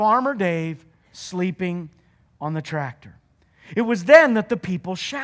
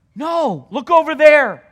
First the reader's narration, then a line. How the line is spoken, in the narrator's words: a little boy shouted